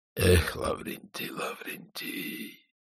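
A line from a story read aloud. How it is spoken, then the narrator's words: Quiet speech. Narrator (Russian): тихо сказал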